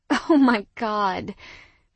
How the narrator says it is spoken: I groaned up to the ceiling

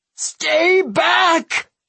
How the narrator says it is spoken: He screamed at the encroaching mob

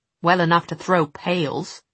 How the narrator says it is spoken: Sophie said crossly

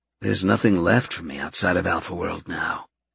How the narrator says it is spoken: he muttered to himself

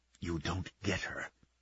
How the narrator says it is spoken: he whispered to Sorbakov, to the night

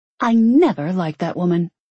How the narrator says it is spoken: she snapped

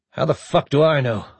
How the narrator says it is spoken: Olivero demanded harshly

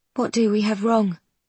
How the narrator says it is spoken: The queen sighs

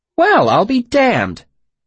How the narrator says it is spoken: she said, her voice sharp with sarcasm

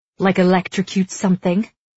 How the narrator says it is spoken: she snaps

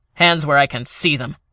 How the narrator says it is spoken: Ellis snapped

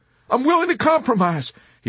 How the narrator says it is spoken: he pleaded vehemently

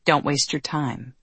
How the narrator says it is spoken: they said

